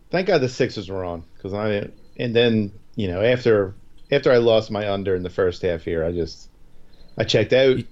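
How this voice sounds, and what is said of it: Slight Canadian-sounding accent. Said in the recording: “You're talking a little Canadian.”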